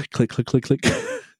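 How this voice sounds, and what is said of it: Vocal imitation of keyboard clicking. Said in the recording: “my keyboard impression”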